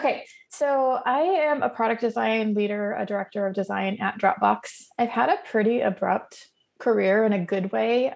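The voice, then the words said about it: Hoarse, rough voice. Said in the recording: “I am recovering from bronchitis. So my voice is super fancy right now, and I may be muting on and off to cough.”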